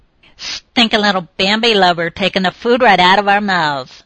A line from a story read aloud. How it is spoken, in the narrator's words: sneered one